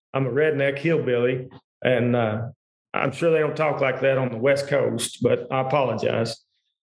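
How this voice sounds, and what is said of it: Kentucky accent. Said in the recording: “I've got a Kentucky accent.”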